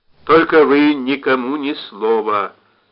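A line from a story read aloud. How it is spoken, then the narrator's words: Stern order. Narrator (Russian): строго приказал Цветков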